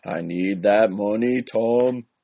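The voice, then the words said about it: Brad Pitt's Irish accent impression. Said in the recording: “The Devil's Own has my favorite Irish accent ever, courtesy of Brad Pitt.”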